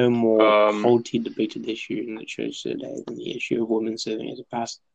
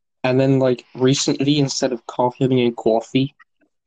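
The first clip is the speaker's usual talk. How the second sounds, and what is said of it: Put-on Long Island accent. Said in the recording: “I've gained a little bit of the like the Long Island accent ... Coffee, Long Island.”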